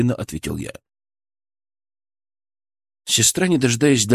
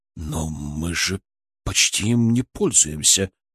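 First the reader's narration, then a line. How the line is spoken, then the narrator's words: Confused mutter. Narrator (Russian): растерянно пробормотал Киселев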